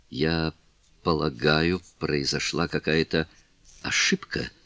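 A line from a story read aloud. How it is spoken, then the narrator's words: Stammering mumble. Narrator (Russian): запинаясь, пробормотала Кларинда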